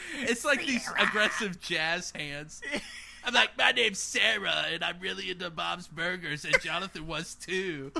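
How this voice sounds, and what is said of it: Imitates another person's voice. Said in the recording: “your Sarah impression”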